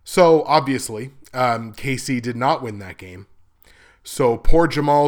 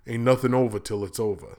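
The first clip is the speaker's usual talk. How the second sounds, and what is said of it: Nasal, bad Rocky impression. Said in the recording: “I can be nasally and do a bad Rocky impression.”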